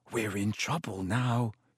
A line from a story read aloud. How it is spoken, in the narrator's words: he said hoarsely